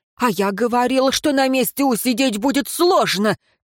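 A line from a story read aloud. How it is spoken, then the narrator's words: Triumphant giant's loud exclamation. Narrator (Russian): торжествующе воскликнул в ухо советнику тангурский исполин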